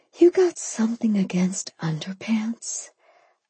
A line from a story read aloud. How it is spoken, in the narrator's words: I whispered